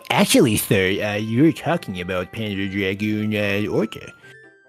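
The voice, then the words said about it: Put-on nerdy voice. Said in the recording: “That was my nerd voice.”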